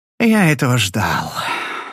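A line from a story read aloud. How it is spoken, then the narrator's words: Sighing. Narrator (Russian): вздохнул Дик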